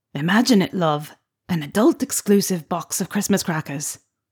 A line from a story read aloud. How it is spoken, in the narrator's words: With a charming smile, Fred leaned in to whisper into Pansy's ear